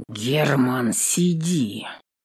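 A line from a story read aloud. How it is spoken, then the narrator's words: Clipped through teeth, father. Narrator (Russian): Чеканит сквозь зубы батя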